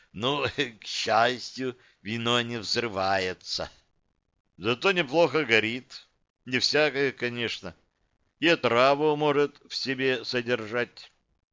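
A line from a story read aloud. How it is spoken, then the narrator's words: Laughing, then calm reply. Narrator (Russian): Гость рассмеялся и, успокоившись, ответил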